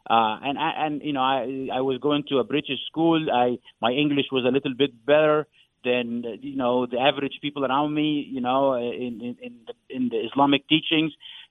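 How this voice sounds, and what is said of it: Non-native English accent. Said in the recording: “I know I have an accent, and, you know, some people in America might not think my English was good”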